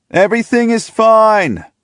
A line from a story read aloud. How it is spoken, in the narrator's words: I yell back